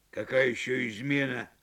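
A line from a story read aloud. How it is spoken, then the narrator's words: Irritated question. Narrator (Russian): раздраженно спросил Жабр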